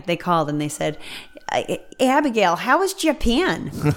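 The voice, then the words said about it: Put-on regional American accent. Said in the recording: “That's a good accent.”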